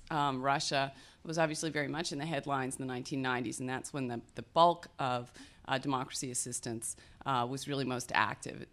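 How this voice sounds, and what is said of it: Voice affected by a cold. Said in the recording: “Pardon my voice. ... We seem to be having a cold, the entire center.”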